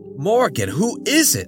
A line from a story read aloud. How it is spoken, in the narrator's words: John yelped